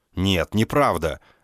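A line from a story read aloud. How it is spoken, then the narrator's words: Exclaiming. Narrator (Russian): воскликнул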